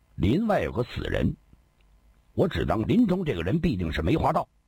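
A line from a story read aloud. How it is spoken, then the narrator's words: Cold. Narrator (Chinese): 锦衣少年冷冷说道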